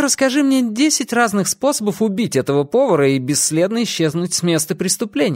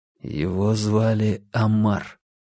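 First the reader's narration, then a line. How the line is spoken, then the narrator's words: Quiet. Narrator (Russian): тихо сказал Уинтер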